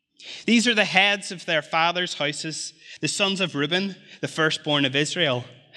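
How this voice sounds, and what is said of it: Speaks with a noticeable accent. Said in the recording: “I know my accent is funny”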